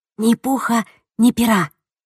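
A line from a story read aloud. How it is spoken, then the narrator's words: Whisper. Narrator (Russian): прошептала она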